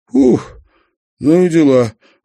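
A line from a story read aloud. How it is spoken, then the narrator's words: Forced, strained words. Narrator (Russian): выдавил из себя Павлыш, стараясь улыбнуться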